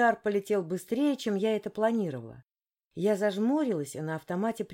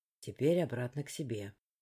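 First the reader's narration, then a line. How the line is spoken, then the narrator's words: Quiet. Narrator (Russian): тихо проговорил Фер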